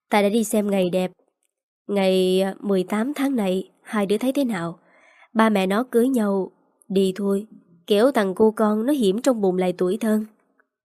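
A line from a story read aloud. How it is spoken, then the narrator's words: Smiling, continuing. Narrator (Vietnamese): mỉm cười nói tiếp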